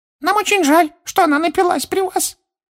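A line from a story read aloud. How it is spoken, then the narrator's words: Dejected squeak, elf. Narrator (Russian): понуро пропищал другой эльф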